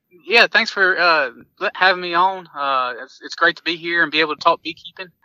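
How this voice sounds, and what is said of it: Southern US accent. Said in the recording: “that accent is something we're going to question on ... I'm from down south. I grew up in North Carolina”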